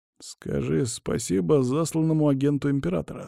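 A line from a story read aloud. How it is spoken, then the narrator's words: Forced through gritted teeth. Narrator (Russian): сквозь зубы процедил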